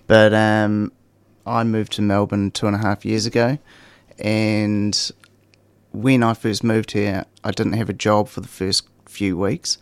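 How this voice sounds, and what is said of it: New Zealand accent. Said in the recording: “you can probably tell by the accent, I'm from New Zealand”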